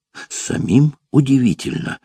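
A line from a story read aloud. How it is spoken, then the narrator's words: Whispered report. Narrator (Russian): шепотом доложил кондуктор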